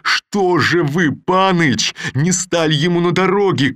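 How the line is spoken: Shouting. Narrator (Russian): крикнул он

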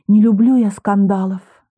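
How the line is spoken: Guilty sigh. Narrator (Russian): виновато вздохнула Алина

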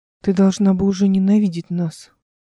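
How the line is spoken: Sighed. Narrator (Russian): вздохнул он

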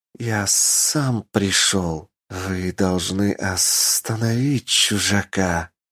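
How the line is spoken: Hiss. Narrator (Russian): прошипел он

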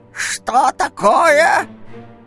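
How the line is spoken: Sharp shout. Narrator (Russian): резко крикнул голос

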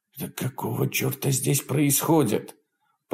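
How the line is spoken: Desperate whisper. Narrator (Russian): прошептал Джефф, в отчаянии

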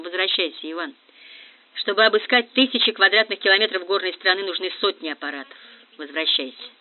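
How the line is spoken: Exhausted, flat, dull voice. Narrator (Russian): Грант, тоже не отдыхавший последние двое суток, измотанный ожиданием и тревогой, сказал невыразительным тусклым голосом

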